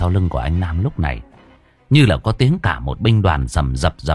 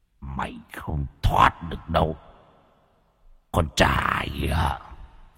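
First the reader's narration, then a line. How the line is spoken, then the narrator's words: Frightening growl. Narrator (Vietnamese): tiếng gầm gừ đáng sợ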